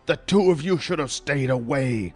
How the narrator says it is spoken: the mystery man spat

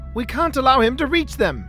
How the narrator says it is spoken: Wellington shouted

